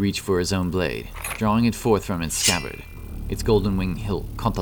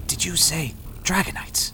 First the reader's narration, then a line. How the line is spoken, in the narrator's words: whispered